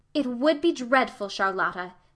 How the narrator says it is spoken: said Anne firmly

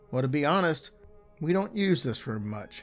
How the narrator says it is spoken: he replied

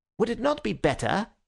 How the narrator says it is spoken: he said a little sharply

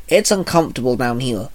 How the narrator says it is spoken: Komori muttered

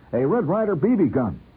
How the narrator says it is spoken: Horrified, I heard myself blurt before I could stop

